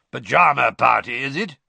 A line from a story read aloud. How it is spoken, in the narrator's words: he growled up the stairs